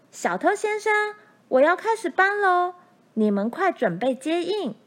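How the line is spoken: Very loud voice. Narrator (Chinese): 他的声音这样大

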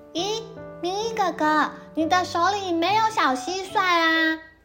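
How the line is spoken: Loud question. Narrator (Chinese): 丫丫大声地问

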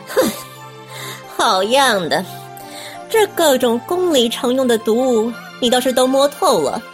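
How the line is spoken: Scornful laugh. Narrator (Chinese): 华妃只得蔑笑了一声

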